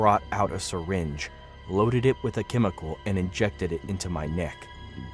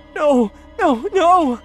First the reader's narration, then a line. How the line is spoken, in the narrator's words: I cried